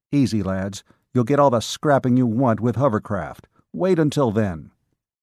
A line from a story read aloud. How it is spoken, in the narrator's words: he snapped from the side of his mouth